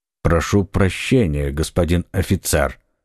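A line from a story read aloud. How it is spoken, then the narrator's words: Plain. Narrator (Russian): сказал Атос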